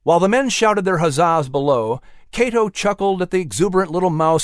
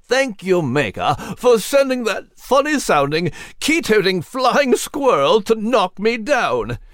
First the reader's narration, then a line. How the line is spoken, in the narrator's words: Nigel exclaimed with a jolly chuckle at the top of his lungs